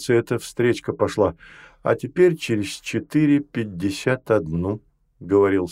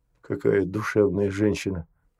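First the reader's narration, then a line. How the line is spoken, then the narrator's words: Male whisper. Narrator (Russian): шепнул он Рине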